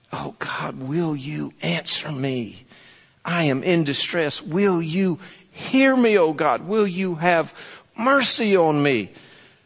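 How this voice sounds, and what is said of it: Pleading, imploring tone. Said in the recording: “I don't hear David being demanding here. I hear David kind of pleading with God.”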